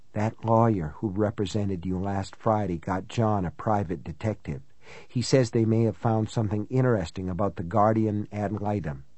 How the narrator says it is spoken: she said in what was almost a con's whisper

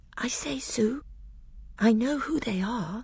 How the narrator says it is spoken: Lucy whispered to Susan

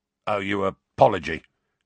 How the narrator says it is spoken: grunted a voice from the middle of the smelly cloud

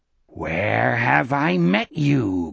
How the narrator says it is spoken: Gardner rasped

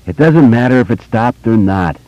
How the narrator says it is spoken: Eddie said gloomily

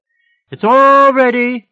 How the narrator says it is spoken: she yelled back

